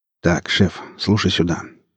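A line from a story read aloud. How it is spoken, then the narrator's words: Spoke quietly. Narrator (Russian): негромко говорил Гриф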